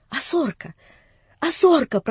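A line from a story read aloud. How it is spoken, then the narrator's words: Trembling old man's mumble. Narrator (Russian): прошамкал он дрожащим старческим голосом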